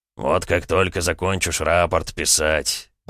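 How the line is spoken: Grumbled. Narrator (Russian): пробурчал Суворов

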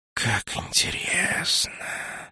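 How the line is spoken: Thoughtful hiss. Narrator (Russian): задумчиво прошипел Нак

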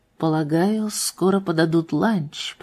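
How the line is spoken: Quiet. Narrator (Russian): проговорил он тихо

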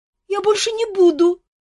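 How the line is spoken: Frightened cry. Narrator (Russian): испуганно вскрикнул Мафей

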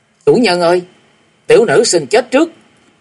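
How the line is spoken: Shrieking. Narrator (Vietnamese): Lục Tĩnh rú lên

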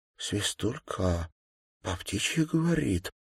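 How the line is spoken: Whispering. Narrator (Russian): прошептала Даша

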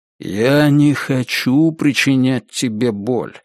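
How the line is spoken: Soft, almost warm. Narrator (Russian): сказал он мягко, чуть ли не сердечно

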